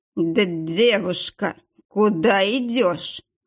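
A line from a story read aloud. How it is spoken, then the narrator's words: Deep bass voice. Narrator (Russian): пробасил он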